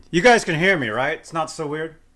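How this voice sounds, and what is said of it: Loud yelling voice. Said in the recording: “I'm yelling”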